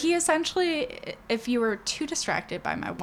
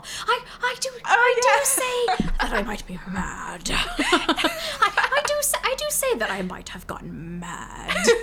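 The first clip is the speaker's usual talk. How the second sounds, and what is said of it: Put-on British accent. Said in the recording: “my wonderful British accent ... I really liked how you got the inflection of the sentences.”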